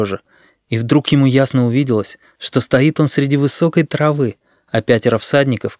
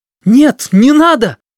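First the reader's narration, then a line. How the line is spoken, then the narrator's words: Shout. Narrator (Russian): крикнул им Сережа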